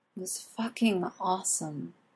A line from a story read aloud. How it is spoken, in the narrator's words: Arthur finally says dreamily